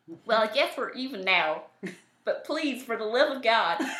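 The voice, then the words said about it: Put-on accent. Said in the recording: “I'm going to do an accent for this, aren't I? ... Do an accent.”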